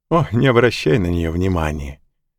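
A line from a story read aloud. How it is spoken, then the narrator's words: Woman laughing. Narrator (Russian): засмеялась негритянка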